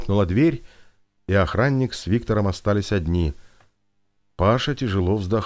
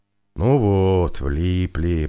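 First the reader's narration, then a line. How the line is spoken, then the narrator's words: Drawl. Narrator (Russian): протянул он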